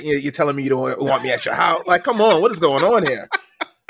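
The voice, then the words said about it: Speaks with a noticeable accent. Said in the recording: “I have an accent, man. It's an accent ... making fun of my accent”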